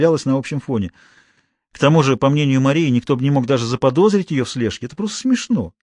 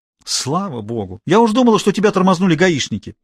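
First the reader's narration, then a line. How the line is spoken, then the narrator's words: Angry reply. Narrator (Russian): сердито отозвалась Мария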